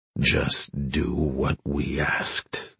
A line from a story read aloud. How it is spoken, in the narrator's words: the man growled